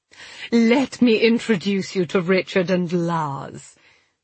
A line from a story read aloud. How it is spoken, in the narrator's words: she purred